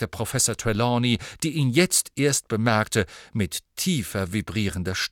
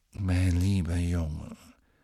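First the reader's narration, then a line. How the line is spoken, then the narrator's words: Soft but clearly audible. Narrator (German): sagte leise, aber gut hörbar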